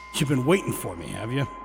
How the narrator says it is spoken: I said with a chuckle

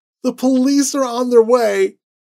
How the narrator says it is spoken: Annie was doubled over on the sidewalk, sobbing

